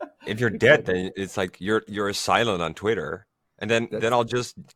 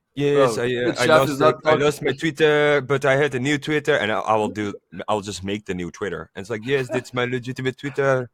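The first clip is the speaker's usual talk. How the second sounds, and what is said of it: Imitation with overly French accent. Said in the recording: “your accent's so difficult. This was way too French. ... my attempt of imitating you was way too French”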